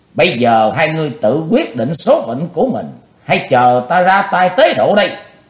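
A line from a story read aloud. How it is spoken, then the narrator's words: Loud shout. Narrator (Vietnamese): Chí Tôn hét lớn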